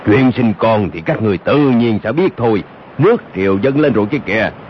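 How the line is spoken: Deep booming voice from behind. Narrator (Vietnamese): chợt nghe sau lưng có một giọng nói ồm ồm vang lên

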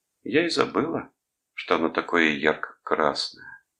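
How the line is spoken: Calm, unemotional. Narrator (Russian): спокойно, безо всякого волнения, сказала она

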